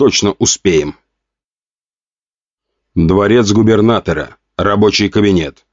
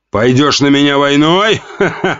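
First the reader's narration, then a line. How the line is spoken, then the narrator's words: Laughing. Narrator (Russian): Рассмеялся Жуков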